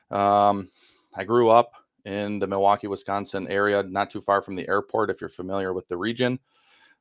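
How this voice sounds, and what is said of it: Northern US (Wisconsin) accent. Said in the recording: “As you can tell from my accent, I am a northerner.”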